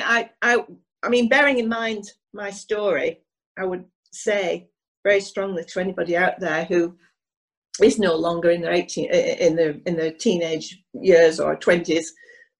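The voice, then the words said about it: Hoarse, failing voice. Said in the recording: “I'm losing my voice now.”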